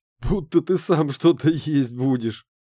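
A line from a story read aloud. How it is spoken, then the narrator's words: Laughing. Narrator (Russian): засмеялся профессор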